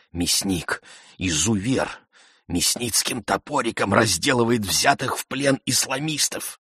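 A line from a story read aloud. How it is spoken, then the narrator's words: Passionate whisper, exhausted man. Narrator (Russian): Худой, изможденный школьный учитель убеждал меня страстным шепотом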